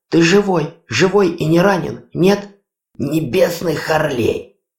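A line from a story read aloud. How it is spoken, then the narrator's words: Agonized, strained. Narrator (Russian): Мученически выдавил из себя Ури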